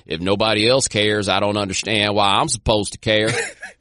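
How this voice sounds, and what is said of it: Randy Moss impression. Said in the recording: “on point Randy Moss impersonation”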